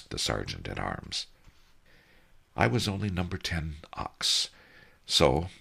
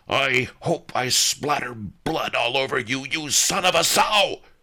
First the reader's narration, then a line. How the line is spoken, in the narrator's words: I yelled